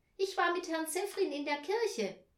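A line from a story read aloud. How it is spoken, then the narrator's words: Called out. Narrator (German): rief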